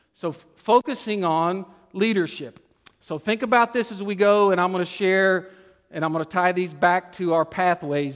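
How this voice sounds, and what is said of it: Tennessee Texas Southern accent. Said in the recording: “my Tennessee, Texas accent”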